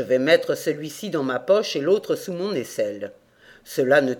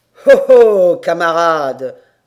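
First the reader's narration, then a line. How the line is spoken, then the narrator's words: Sneering laugh. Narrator (French): ricana-t-il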